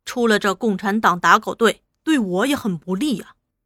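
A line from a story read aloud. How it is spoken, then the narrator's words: Cold. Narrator (Chinese): 大头冷冷地说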